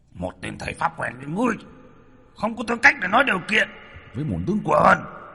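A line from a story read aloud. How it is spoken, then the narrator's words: Arrogant roar. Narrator (Vietnamese): Với bản tính ngông cuồng, hắn gầm lên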